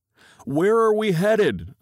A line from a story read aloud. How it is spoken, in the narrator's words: yell